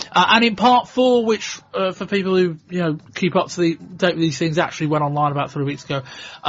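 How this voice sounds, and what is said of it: Slightly croaky voice. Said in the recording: “My voice is a little bit croaky.”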